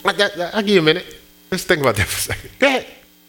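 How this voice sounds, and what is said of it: Sarcastic delivery. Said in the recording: “That was sarcastic.”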